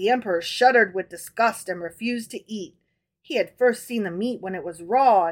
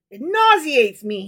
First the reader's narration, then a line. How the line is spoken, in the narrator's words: he cried